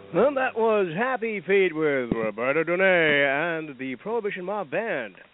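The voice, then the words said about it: Announcer-style radio voice. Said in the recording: “radio voice ... My radio voice”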